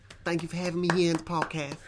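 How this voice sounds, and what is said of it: Genteel imitation of another person's voice. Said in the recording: “what is that voice? It was like Mike Tyson. ... It was like a genteel Mike Tyson.”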